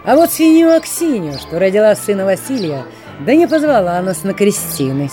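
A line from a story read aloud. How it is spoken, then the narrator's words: Bold cheerful young man. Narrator (Russian): смело и весело рассказывал молодец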